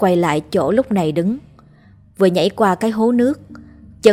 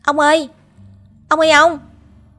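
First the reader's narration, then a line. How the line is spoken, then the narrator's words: Shouted. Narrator (Vietnamese): Tôi hét lên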